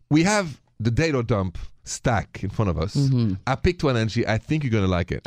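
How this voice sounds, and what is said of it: French accent. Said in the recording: “My accent is French”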